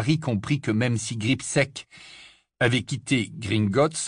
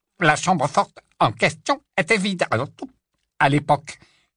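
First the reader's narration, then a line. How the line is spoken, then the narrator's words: Curt retort, goblin. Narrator (French): répliqua sèchement le gobelin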